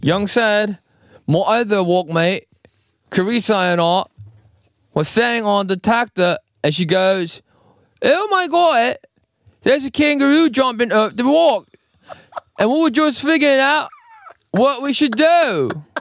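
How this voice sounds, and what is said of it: Fairly good put-on Australian accent. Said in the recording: “so I'm gonna do an Australian accent... Was that British? Australian?... that's Australian... that's pretty good actually”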